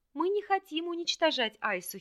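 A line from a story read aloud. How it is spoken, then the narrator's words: Giggling. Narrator (Russian): хихикнул Хельд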